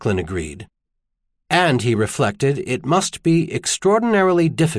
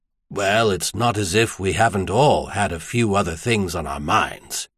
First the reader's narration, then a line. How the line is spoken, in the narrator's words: Seamount observed dryly